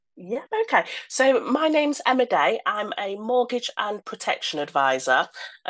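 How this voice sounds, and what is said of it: Voice with a heavy cold. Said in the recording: “Full of cold”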